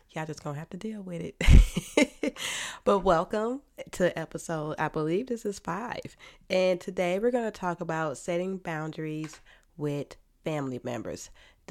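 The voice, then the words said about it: Nasal, congested voice. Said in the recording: “these sinuses have been kicking my butt this week... I sound a little nasally”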